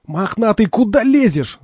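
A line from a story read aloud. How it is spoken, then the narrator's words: Panicked yell. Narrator (Russian): завопил, не зная, что ему делать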